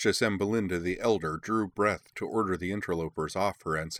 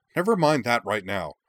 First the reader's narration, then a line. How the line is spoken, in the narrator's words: the young prince snapped, his eyes blazing